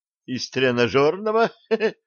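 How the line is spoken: Giggling. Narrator (Russian): хихикнул Джим

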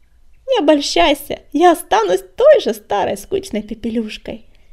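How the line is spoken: Laughing, young woman. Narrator (Russian): рассмеялась ученица-целительница

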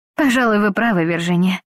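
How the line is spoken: Sighing. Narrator (Russian): вздохнула Глэдис

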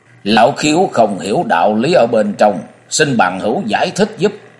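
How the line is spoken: Cold. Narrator (Vietnamese): Nhậm Bất Khí lạnh lùng nói

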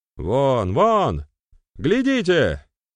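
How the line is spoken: Crew member shouting. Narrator (Russian): крикнул кто-то из членов команды

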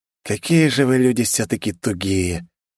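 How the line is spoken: Heavy sigh. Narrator (Russian): тяжело вздохнул Вальдемар

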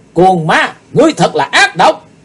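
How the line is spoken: Loud yell. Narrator (Vietnamese): Chí Tôn quay lại thét lớn

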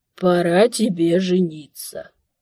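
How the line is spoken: Old man, creaky voice. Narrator (Russian): скрипящим голосом вещал старик

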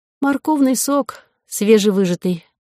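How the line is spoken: Sad sigh. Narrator (Russian): грустно вздохнула

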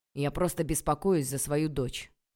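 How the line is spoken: Irritated father. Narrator (Russian): раздраженно ответил папа

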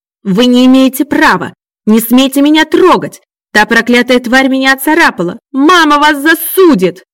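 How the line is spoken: Yelled. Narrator (Russian): завопил Макс

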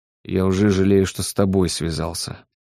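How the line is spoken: Grumbling. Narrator (Russian): пробурчал Оладьев

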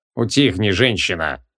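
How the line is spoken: Growl. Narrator (Russian): рыкнул Аль-Шугидим

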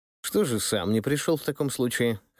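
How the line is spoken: Skeptical grunt. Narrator (Russian): хмыкнул я

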